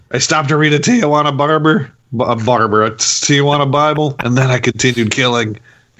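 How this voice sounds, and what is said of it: Imitates another person's voice. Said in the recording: “You sound like Kirk Douglas when you do that impression.”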